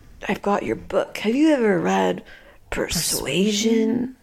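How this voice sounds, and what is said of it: Imitates another person's voice. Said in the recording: “the Keanu impersonation ... I think you got that one down ... I think it was pretty good”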